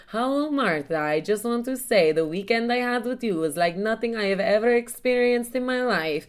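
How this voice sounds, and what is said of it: Put-on accent reading a message. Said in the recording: “What fucking accent is this?”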